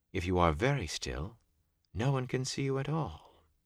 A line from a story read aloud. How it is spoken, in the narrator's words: Celine said quietly